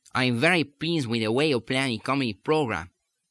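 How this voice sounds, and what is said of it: Put-on accent, final consonants dropped. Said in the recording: “I really went the whole hog that time... I'll continue for a minute to talk this way, that as I work to get the resonance in the new point and to keep the teeth on the alveolar ridge up away from the tongue, that there are times when those final consonants seem to escape altogether”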